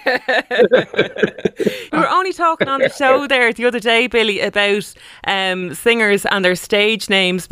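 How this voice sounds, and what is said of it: Irish accent. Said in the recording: “I love the Irish accent”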